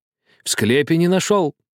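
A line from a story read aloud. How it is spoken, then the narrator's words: Old man's joyful whisper. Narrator (Russian): радостно шептал старик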